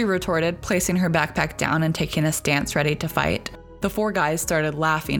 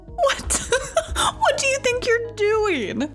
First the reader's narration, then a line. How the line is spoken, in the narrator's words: Justin said through roaring laughs